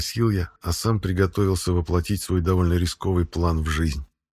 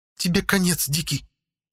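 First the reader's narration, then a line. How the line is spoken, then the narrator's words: Angry hiss. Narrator (Russian): зло прошипела Ягда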